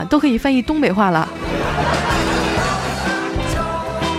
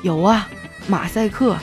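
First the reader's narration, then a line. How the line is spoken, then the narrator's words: Sighing. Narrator (Chinese): 同事叹了口气说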